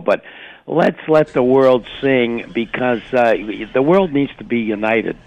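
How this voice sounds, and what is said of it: Hoarse voice with a cold. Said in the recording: “I got a little bit of a cold and a little bit of laryngitis”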